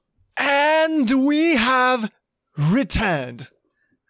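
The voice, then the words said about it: Put-on British accent. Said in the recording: “I don't know why I did that in a British accent.”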